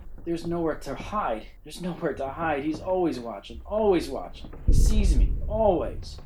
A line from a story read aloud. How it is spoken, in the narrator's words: Sherman whimpered and muttered in his ear